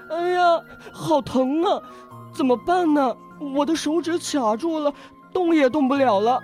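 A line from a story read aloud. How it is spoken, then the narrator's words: Crying in pain. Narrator (Chinese): 他疼得哭了起来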